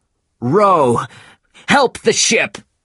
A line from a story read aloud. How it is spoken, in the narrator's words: shouted Captain Ahab